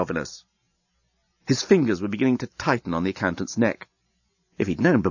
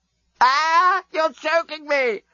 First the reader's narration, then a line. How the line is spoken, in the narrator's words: screamed Scraliontis